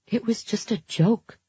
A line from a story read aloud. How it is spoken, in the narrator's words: I said softly